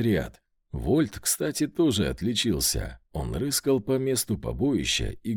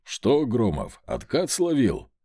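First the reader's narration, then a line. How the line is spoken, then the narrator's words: Smirking grunt from above. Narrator (Russian): хмыкнул где-то надо мной Рогов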